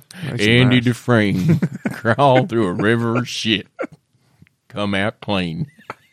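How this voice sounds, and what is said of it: Bad Morgan Freeman impression. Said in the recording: “That is such a bad Morgan Freeman accent.”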